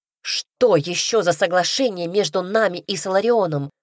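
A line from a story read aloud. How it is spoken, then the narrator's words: Barking sharply. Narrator (Russian): рявкнула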